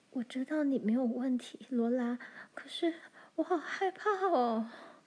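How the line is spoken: Trembling voice. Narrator (Chinese): 艾达的声音在发抖

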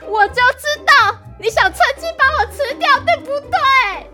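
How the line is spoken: Shouting. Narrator (Chinese): 点点对着狼宝宝大喊

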